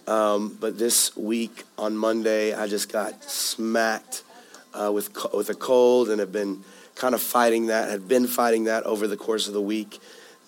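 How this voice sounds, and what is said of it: Hoarse, raspy voice. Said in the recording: “I'm a bit hoarse. Last week I started losing my voice ... Some of you might have noticed the raspiness.”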